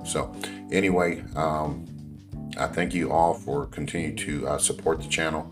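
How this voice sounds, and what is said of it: Hoarse voice. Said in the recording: “I'm still kind of hoarse. You can probably hear it in my voice because it was really, really rowdy”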